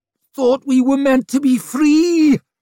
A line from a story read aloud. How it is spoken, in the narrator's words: he whined